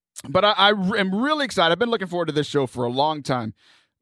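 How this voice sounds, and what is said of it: Worn, strained tired voice. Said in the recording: “My voice is a little shot today ... I'm a little tired.”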